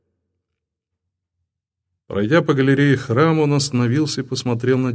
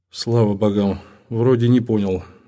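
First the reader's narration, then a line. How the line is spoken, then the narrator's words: Sighing. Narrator (Russian): вздохнул Озас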